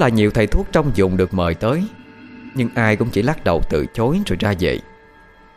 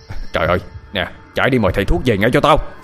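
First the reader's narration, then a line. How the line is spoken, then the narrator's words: Shouting orders. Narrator (Vietnamese): Ông Lành quát đám gia nhân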